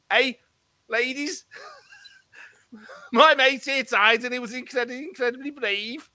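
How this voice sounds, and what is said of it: Poor put-on Scouse accent. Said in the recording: “You are terrible at a scout accent.”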